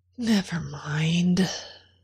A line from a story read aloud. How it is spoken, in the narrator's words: she sighed and said